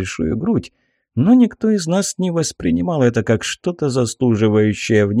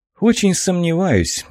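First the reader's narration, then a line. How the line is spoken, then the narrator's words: Sigh. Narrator (Russian): вздохнул я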